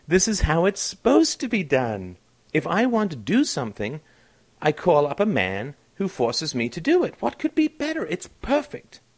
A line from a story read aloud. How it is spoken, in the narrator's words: said soothingly